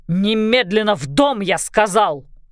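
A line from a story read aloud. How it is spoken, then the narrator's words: Growling father. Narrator (Russian): зарычал отец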